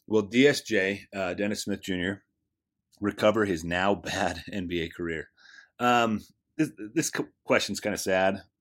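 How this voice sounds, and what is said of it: Strained, fading voice. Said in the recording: “I'm losing my voice. ... I don't have Dan to allow me to recover my voice every couple minutes.”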